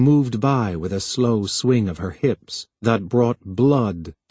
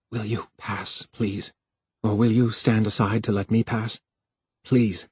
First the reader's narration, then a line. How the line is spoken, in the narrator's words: Harlan said in a desperate whisper